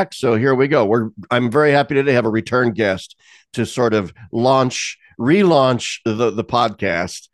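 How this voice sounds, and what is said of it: Congested, stuffy voice. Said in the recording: “I'm still fighting off sinus infection I picked up in Rome. You might hear it in my voice”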